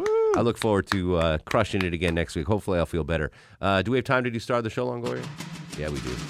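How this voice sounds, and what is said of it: Sick, tired-sounding voice. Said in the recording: “Still under the weather ... I still sound like sick ... You sound tired ... I'm tired, yes, but I'm still sick”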